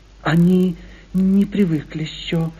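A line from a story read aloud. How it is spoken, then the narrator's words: Timid, sugary voice. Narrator (Russian): произнесла робким и умильным голосом одна из приживалок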